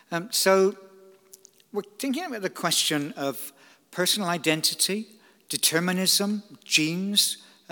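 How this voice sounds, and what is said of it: Slight Bristolian twang. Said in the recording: “I still have a little bit of a twang. I'm a native-born Bristolian.”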